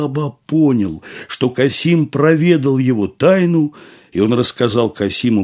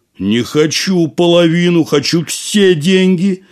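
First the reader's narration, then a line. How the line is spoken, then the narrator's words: Shouting. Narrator (Russian): закричал Касим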